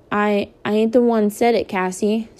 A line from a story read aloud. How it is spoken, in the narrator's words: stammered Jeremy by way of apology